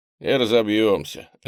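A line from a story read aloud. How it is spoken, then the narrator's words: Lazy reply. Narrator (Russian): лениво ответил Джо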